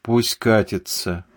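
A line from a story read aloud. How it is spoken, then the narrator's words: Grumble. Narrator (Russian): буркнул Вторушин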